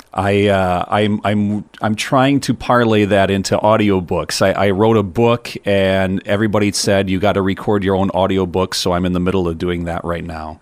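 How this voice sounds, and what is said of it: Classic good radio voice. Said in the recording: “You got such a good voice. ... You've got like the classic, like the good radio voice.”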